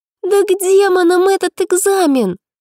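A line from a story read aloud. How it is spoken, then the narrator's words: Exclamation. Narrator (Russian): воскликнула подруга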